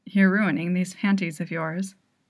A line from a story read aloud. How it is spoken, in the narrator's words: he murmurs